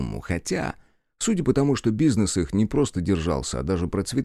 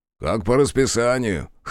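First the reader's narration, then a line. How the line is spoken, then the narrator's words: Snorting remark. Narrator (Russian): хмыкнул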